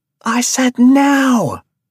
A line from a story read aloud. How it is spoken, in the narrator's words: Rabia screamed from outside